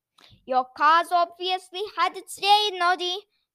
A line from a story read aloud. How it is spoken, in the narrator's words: Gobo shouted at him, chuckling